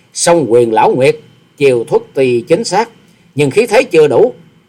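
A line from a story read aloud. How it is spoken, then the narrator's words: Calm, scornful sneer. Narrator (Vietnamese): Hoa Sĩ Kiệt mặt không đổi sắc, miệng cười khẩy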